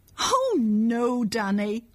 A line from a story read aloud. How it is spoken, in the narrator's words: cried Annette